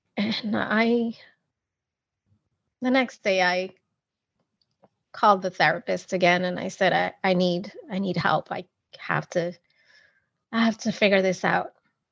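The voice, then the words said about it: Emotional, choked-up voice. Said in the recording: “I can never tell that story without getting emotional.”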